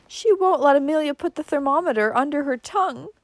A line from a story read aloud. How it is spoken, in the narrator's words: whimpered Cousin Stickles